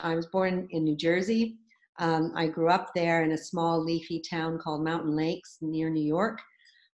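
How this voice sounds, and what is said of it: American accent, not British. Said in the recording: “you'll know by the accent, it's not British”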